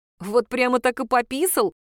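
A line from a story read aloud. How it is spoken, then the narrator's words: Laughing question. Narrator (Russian): спросил Слава, смеясь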